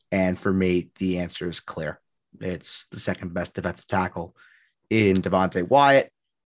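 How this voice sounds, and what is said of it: Hoarse, tired voice. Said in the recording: “Your voice is sounding a little hoarse. ... Oh, it's very coarse right now.”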